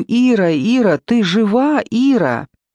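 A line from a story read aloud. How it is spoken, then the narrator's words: Frantic screaming. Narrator (Russian): Я истошным голосом, я свой голос не узнала, кричу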